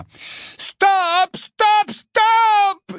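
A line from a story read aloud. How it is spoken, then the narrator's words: Scream. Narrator (French): hurla Angelina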